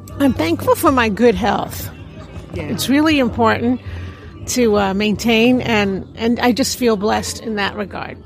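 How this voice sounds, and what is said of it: New York accent. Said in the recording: “as you can hear the accent. I'm from New York”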